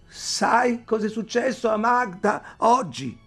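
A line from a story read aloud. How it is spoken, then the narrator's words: Shouting. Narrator (Italian): Ayla gridò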